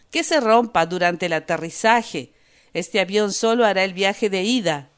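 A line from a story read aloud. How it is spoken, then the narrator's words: Said, laughing maniacally. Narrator (Spanish): dijo el árabe, y rió como un poseso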